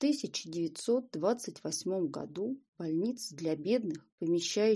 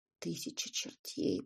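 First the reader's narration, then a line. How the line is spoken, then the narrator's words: Mutter. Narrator (Russian): пробормотал Стильтон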